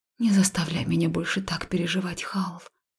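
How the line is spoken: Pleading whisper. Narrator (Russian): с умоляющими нотками прошептала

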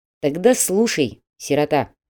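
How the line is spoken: Stern. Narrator (Russian): строго сказал менеджер

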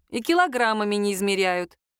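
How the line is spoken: Friend giggling. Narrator (Russian): хихикнула подруга

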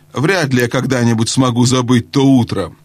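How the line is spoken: Angry reply. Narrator (Russian): отвечал сердито другой голос

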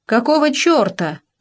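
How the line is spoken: Yell. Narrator (Russian): заорал Маркелов

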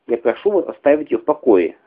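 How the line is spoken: Sharp demand. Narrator (Russian): резким тоном потребовала Ретта поразительно

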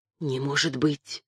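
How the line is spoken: Astonished whisper. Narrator (Russian): изумленно прошептал барон

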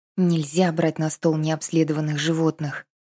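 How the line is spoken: Quiet whisper. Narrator (Russian): прошептала она тихо

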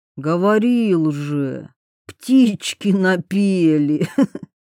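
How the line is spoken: Drawling with a smirk. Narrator (Russian): протянул Алан, усмехаясь

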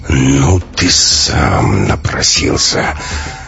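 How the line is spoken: Hissed through clenched teeth. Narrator (Russian): Стиснув зубы, Максим прошипел

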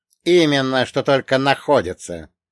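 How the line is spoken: Sharp. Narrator (Russian): резко высказался Ито-сан

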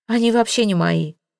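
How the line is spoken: Calm. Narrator (Russian): спокойно сказал кузен

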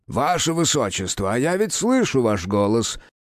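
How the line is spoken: Cheerful shout through door. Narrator (Russian): бодро прокричал из-за двери лекарь

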